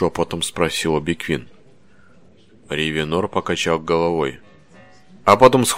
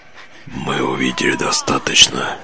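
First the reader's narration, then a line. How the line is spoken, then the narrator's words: Whisper. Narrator (Russian): прошептал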